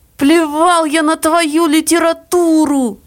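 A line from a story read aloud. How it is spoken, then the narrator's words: Exhausted shout. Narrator (Russian): крикнул он измученно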